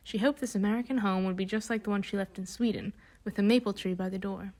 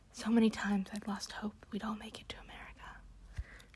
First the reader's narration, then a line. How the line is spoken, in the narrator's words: Kirsten heard her whisper